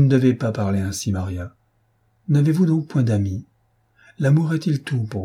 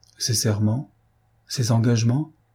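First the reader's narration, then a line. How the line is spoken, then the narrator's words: Plain. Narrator (French): dit Maria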